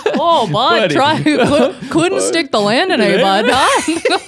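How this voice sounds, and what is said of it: Put-on Canadian accent. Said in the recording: “if you give yourself a more Canadian accent.”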